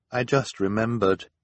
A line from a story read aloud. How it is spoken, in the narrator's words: said in a quiet, sad voice